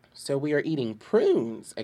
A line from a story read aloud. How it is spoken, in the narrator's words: exclaimed, as away went the three bears laughing